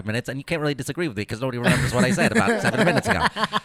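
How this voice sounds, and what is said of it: Very fast rapid-fire speech, imitating someone. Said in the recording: “This is my Ben Shapiro impression right here. I'm just going to talk really fast with a lot of facts”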